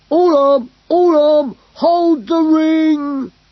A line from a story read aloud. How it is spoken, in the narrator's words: cried Glurk